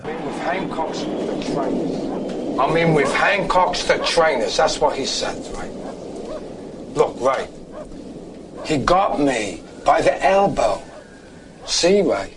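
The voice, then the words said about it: Put-on Cockney accent. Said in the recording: “he does a Cockney accent ... doing a Cockney accent”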